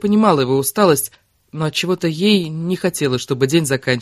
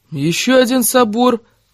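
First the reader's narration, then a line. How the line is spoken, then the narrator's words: Wailing. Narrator (Russian): взвыл Григорян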